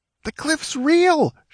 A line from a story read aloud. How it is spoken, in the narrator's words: shrieked the squire